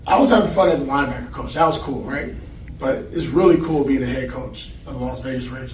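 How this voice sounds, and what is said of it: Slightly hoarse voice. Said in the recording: “I'm a little hoarse. I hit the cigar there, It got me a little choked up,”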